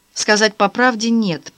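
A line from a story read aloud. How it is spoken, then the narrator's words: Embarrassed girl mumbling. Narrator (Russian): пробормотала девушка, густо краснея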